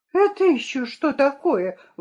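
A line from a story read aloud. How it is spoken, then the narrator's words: Exclamation. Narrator (Russian): воскликнула она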